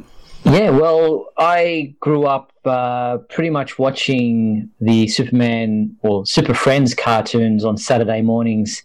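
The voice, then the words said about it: Australian accent. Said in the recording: “if you can't tell listeners from the accent, ... from Australia”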